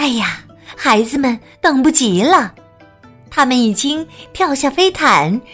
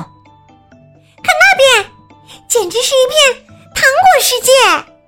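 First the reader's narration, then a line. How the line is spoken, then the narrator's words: Sudden shout. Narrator (Chinese): 丽莎突然大叫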